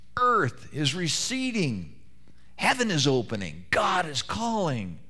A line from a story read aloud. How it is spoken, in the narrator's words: on the morning of his death, heard him exclaim